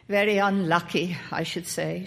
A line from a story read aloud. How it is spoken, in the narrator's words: she said bitterly